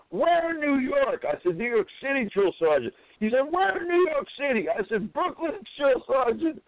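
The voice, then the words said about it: Brooklyn New York accent. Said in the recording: “being from Brooklyn... he detected my accent”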